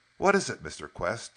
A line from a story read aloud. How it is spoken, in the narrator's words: he asked eagerly